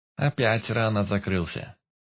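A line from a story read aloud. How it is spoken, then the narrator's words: Amused snort. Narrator (Russian): Хмыкнул Болик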